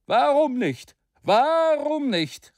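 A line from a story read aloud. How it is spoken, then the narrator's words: Fiery orator calling out. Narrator (German): rief der feurige Redner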